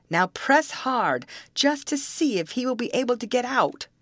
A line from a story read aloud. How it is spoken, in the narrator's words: the young man called out